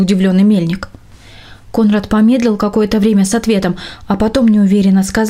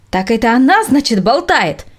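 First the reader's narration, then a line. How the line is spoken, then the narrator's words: Angry shouting. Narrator (Russian): закричал разозленный мельник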